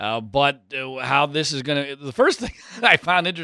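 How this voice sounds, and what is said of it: Usual voice. Nothing is said of it.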